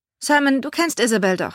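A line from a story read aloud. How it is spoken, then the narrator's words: Cheerful question. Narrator (German): fragte Harry fröhlich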